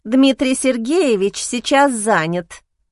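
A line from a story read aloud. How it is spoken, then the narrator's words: Nasty voice. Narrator (Russian): противным голосом ответила блондинка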